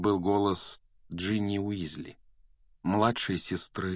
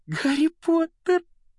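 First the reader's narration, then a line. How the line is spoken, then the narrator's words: Squeaky girl. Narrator (Russian): пропищала Джинни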